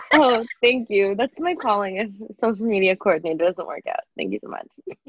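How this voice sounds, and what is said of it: Husky just-woke-up voice. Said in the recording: “my voice is really weird right now because I haven't like talked a lot since I've woken up ... you sound like a sexy like telephone lady ... sexy phone voice”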